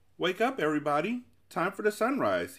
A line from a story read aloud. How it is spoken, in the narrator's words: shouted with relief